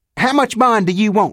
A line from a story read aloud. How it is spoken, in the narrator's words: he snapped